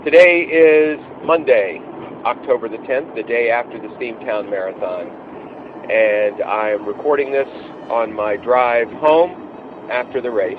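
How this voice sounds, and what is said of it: Subdued, low-energy voice. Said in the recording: “my voice sounds a little subdued this morning”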